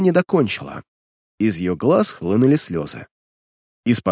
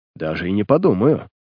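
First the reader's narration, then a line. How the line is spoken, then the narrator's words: Calm objection. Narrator (Russian): спокойно возразил преступник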